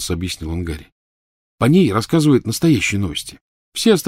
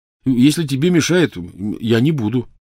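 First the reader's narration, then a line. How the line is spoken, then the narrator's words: Hurried reassurance. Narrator (Russian): торопливо заверил он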